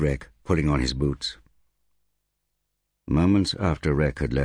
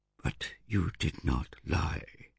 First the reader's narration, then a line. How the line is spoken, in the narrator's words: whispered Winter